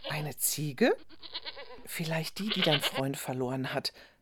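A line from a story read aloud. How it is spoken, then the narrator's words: Whispered. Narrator (German): flüsterte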